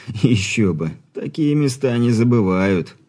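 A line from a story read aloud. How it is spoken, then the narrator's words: Chuckle. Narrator (Russian): хохотнул Ирман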